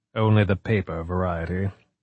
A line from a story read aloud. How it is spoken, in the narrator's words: Kawakita replied dryly